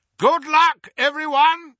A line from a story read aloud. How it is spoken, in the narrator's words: shouted Moody